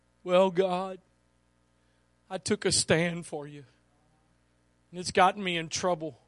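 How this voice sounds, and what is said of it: Weepy, whiny voice. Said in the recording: “I'm pretty sure he said it in a very weepy, whiny voice.”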